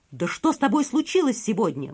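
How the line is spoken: Exclamation. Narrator (Russian): воскликнул Мишра

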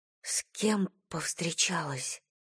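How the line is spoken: Whisper. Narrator (Russian): прошептала Айрис

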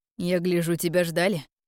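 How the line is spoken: Amused snort. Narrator (Russian): хмыкнул друг

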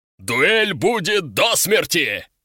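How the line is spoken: Booming bass growl. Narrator (Russian): Своим фирменным армейским басом рыкнул генерал, так что задрожали стекла на окнах

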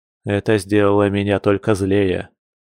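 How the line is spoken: Grumble. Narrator (Russian): проворчал Яр

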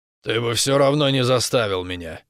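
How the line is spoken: Grumbling. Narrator (Russian): буркнул Рос

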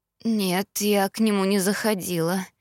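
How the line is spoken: Sleepy mumble. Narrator (Russian): сонно пробормотала она

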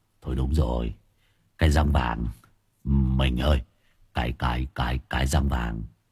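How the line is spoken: Shocked stammering. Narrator (Vietnamese): Anh Long giật mình, mặt cắt không còn một giọt máu, lắp bắp

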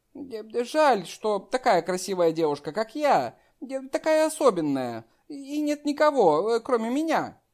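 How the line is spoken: Giggling reply. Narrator (Russian): хихикнула про себя и ответила

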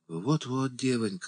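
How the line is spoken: Old woman's sigh. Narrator (Russian): вздохнула старуха

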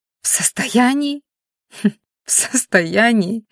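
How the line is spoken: Muffled laugh. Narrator (Russian): Девушка глухо рассмеялась

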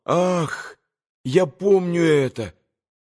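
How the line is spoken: Sudden moan. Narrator (Russian): Алеша вдруг … простонал

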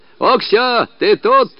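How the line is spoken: Shouting. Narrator (Russian): кричал

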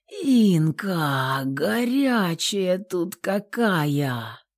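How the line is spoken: Drawn-out male exhale. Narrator (Russian): выдохнул мужчина протяжно

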